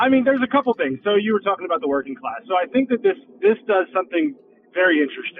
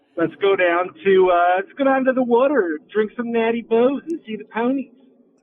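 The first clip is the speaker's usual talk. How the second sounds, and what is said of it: Put-on Baltimore accent, Frank Sobotka. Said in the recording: “a frank sobotka impression ... a baltimore accent ... the old Balmer”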